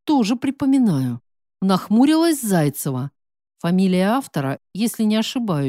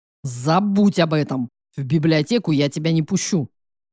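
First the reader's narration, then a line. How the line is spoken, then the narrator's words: Growl. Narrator (Russian): Рыкнул Матвей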